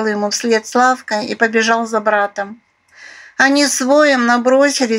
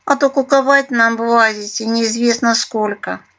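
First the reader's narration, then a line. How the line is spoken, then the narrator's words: Relieved sigh. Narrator (Russian): облегченно вздохнула Куала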